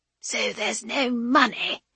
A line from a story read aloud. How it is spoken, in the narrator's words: the chops man whispers to his neighbour